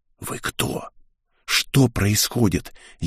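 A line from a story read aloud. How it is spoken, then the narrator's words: Furious silent whisper, boy. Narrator (Russian): яростно, хотя и беззвучно зашептал мальчишка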